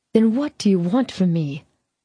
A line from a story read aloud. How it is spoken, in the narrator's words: I sighed